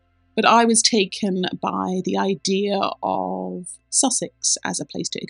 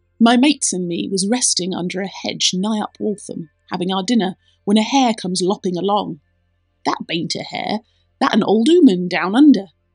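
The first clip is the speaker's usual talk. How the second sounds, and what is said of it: Put-on Sussex countryman accent. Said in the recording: “There is an accent, a countryman accent involved in this story, which I am going to do terrible justice.”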